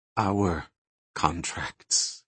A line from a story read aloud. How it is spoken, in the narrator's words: he added quietly